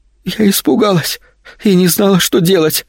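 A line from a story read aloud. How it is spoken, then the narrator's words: Sobbing explanation. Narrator (Russian): всхлипывая, объяснила девушка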